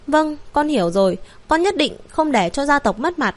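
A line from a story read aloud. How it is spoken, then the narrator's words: Heavy sigh. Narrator (Vietnamese): Hắn dùng lực thở dài một cái, gật đầu nói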